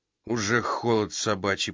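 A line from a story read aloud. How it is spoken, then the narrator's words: Grumbling. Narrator (Russian): проворчал Фридман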